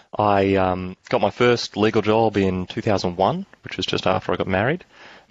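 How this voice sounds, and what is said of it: Australian accent. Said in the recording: “I'm an Australian lawyer, and that means my accent's going to stand out”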